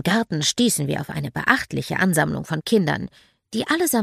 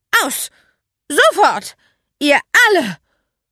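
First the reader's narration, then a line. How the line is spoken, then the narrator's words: Roaring. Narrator (German): brüllte Magda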